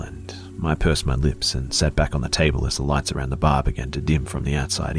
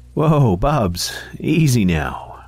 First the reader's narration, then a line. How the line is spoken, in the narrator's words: said Karen with a chuckle